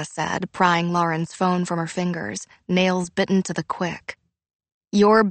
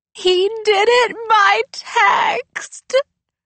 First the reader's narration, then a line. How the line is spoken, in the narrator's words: Lauren wailed